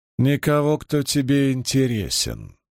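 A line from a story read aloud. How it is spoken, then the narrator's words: Calm reply. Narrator (Russian): спокойно ответила Суан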